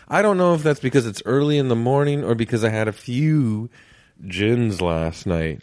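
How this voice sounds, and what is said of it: Slightly raspy, rough voice. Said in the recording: “My voice is feels like it's a little raspy right now, maybe a little rough around the edges.”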